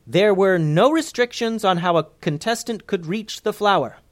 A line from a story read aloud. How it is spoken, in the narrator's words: hollered Daisy Dropkick, so everyone could hear